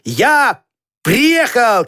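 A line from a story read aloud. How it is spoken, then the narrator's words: Shout. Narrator (Russian): крикнул Петька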